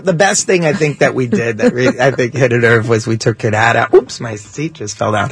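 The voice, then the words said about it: Old New York Yiddish-English accent. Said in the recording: “I love that accent. ... It's a dying accent. You know, we don't hear that anymore. ... Go to New York. ... The Yiddish? ... Yiddish English”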